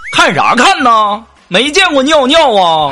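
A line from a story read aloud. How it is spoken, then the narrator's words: Angry yelling. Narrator (Chinese): 那人就冲我嚷嚷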